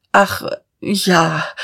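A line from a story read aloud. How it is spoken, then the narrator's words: Stammering. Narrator (German): stammelte Diederich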